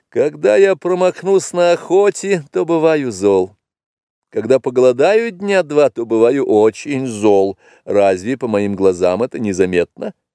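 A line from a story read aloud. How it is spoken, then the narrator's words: Laughing reply. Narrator (Russian): тот ответил ей, засмеявшись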